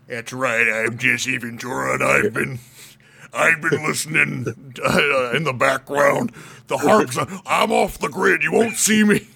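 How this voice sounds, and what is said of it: Jesse Ventura impression, Alex Jones-like. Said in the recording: “your Jesse Ventura impression ... How he's got like that lower jaw. ... Minnesota. ... It was kind of Alex Jonesy”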